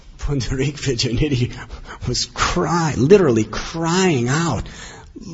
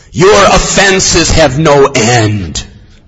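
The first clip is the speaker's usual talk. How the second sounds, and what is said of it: Very angry voice. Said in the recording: “spoke in a very angry voice”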